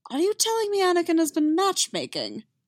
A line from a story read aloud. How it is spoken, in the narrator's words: He spluttered